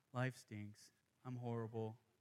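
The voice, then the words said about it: Gloomy Eeyore impression. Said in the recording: “Is that a good Eeyore impression? Probably not.”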